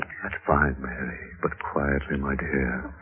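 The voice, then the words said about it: Whispering. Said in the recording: “Why the whisper, mister?”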